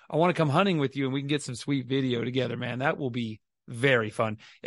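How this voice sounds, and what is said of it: Hoarse, lost voice. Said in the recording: “If everyone can hear, I've lost my voice. ... Oh, I lost my voice.”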